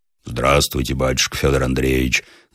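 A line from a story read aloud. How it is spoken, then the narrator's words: Roaring deep bass. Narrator (Russian): заревел он толстым басом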